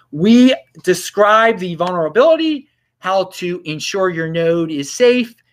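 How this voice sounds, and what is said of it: Baltimore accent. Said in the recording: “I just said that with a Baltimore accent”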